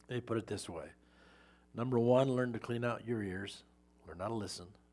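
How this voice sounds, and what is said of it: Strained, hoarse-sounding voice. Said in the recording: “my voice is bad”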